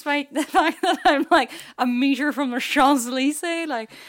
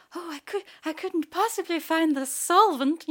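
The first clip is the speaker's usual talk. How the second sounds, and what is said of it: Put-on British accent. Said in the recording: “in my British accent”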